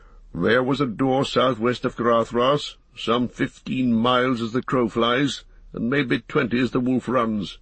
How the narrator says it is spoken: answered Gandalf grimly

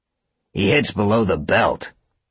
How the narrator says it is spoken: Ryder snarled

